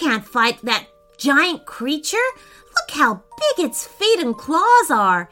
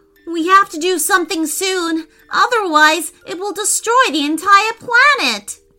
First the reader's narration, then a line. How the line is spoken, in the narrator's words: cried Preston